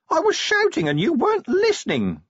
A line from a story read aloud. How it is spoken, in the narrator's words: the imp whined